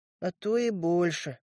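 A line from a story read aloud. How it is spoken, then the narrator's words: Sad reply. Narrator (Russian): грустно ответил я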